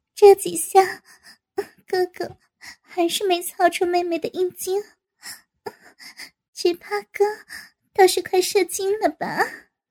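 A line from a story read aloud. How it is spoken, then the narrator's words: Breathless laughing. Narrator (Chinese): 王丹气喘吁吁地笑道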